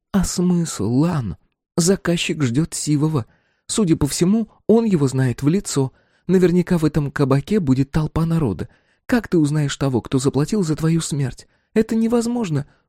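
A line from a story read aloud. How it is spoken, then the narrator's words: Exclaimed. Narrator (Russian): воскликнула она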